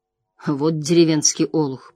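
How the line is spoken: Muttered. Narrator (Russian): пробормотал

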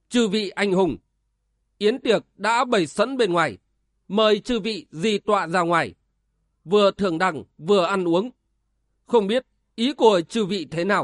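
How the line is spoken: Raised voice. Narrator (Vietnamese): Tường Lâm cao giọng

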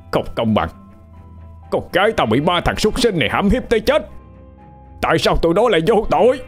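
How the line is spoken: Man's tearful, uncontrolled shouting. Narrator (Vietnamese): Càng hét, người đàn ông càng mất kiểm soát đi, nước mắt giàn giụa

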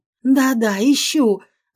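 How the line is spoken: Exclamation. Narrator (Russian): воскликнула

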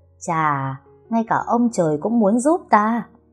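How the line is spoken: Gleeful, laughing loudly. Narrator (Vietnamese): Mợ chàng khoái chí cười lớn nói với lão Lê

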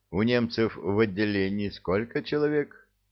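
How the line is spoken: Plain question. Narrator (Russian): спросил фермер

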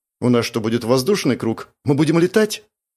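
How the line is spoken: Frightened question. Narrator (Russian): испуганно поинтересовалась Маша

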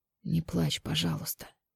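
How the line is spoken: Pained whisper. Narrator (Russian): с болью в голосе прошептал

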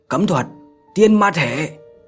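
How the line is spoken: Low growl, then shout. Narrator (Vietnamese): Người đàn ông trung niên kia, gầm nhẹ một tiếng, miệng thì quát

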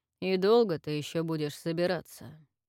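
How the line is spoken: Cold question. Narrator (Russian): Холодно спросил Марс

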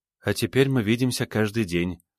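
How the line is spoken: Smiling, slightly sad. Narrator (Russian): улыбнулась Юл, пусть и немного печально

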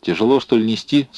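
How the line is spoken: Plain. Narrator (Russian): спросил он

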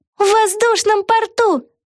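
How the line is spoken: Exclamation. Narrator (Russian): Воскликнула Вега

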